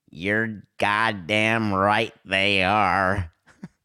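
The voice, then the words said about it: Poor imitation of another person's voice. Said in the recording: “That was the worst Jack Nicholson imitation maybe ever.”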